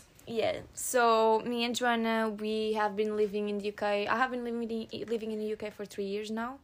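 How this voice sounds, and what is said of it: Portuguese-accented English. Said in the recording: “accents ... Latin accent. Some people say it's sexy. Some people say it looks Russian ... we're Portuguese”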